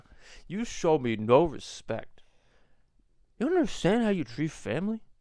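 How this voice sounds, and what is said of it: Bad impression of another person's voice. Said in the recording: “I'm doing such a bad Marlon Brando impression”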